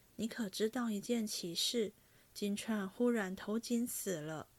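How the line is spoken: Sighing. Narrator (Chinese): 王夫人叹道

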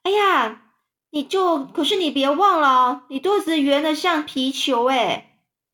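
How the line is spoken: Shouting. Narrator (Chinese): 她就大叫着说

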